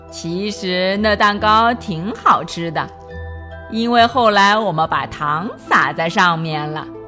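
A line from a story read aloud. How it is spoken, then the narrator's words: Smiling. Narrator (Chinese): 老鼠笑着说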